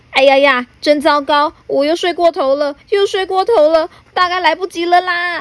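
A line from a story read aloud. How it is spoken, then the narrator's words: Startled, flustered clamoring. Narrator (Chinese): 匆忙先生突然从睡梦中惊醒，嘴里不停嚷嚷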